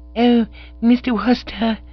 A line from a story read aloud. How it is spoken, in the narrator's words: said the girl in a gasping sort of way